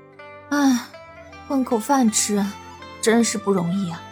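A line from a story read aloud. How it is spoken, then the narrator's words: Weary sigh. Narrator (Chinese): 云溪感叹道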